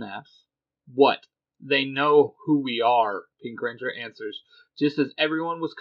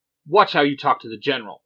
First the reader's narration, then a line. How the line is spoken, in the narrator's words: Black Ranger snaps